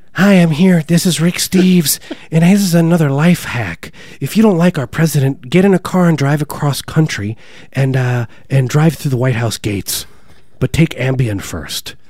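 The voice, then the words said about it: Imitates another person's voice. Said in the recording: “That's a really good Rick James impersonation.”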